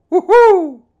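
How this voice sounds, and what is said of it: Imitated horned owl call. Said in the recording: “did the best impersonation of a horned owl”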